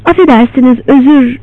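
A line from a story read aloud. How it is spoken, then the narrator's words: Began stammering. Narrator (Turkish): diye kekelemeye başladı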